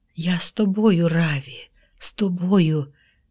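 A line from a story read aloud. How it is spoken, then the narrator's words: Whispering. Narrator (Ukrainian): шепотів Симон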